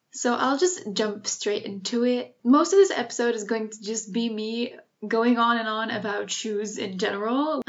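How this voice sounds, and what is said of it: Slightly British accent. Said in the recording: “if my accent is slightly more British today ... I'm not American, but I am half British”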